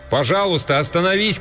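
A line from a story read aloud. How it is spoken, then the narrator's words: Shouted after someone. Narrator (Russian): крикнул я ему в спину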